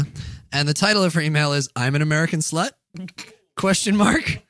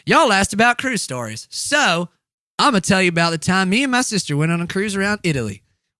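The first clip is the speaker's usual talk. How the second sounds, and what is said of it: Put-on Southern accent. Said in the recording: “I'm going to read this one in a southern accent because you said y'all.”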